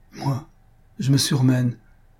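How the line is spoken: Flustered stammer. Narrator (French): balbutia Antoinette, déconcertée de voir qu'on remarquait son changement

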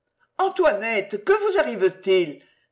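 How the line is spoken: Alarmed exclamation. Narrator (French): s'écria celle-ci en la voyant pâle, en larmes, les traits bouleversés

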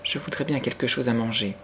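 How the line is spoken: Timid. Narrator (French): ajouta Sarah timidement

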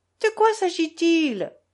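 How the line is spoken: Exclaiming. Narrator (French): s'exclama Lise

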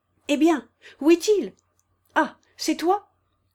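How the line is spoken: Shouting. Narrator (French): cria-t-elle

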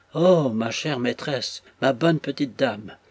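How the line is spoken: Intermittent cries. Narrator (French): s'écriait-elle par intervalles

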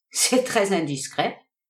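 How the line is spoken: Laughing reply. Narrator (French): répondit en riant le milliardaire

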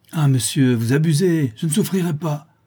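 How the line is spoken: Schoolmaster exclaiming. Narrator (French): s'écria le maître d'école

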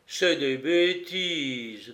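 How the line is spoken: Grave, determined voice. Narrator (French): déclara Martin Latouche d'une voix grave et subitement volontaire

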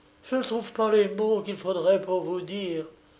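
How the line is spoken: Overjoyed exclamation. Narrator (French): s'écria Yvette au comble de l'allégresse

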